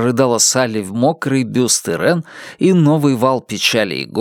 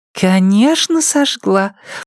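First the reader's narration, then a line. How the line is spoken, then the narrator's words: Purring. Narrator (Russian): промурлыкала Ирен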